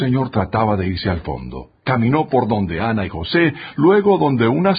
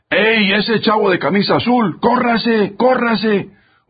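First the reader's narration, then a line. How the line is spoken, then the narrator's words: Shouting man. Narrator (Spanish): el ayudante ... gritó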